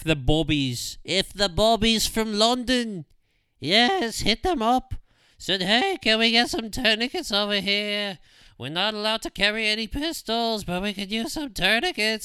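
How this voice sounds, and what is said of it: Poor put-on English accent. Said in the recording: “That's what, in my mind, a bobby would sound like. My terrible English accent.”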